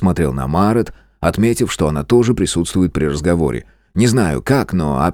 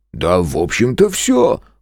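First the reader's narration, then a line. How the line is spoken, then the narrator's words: Snort. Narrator (Russian): хмыкнул Зверев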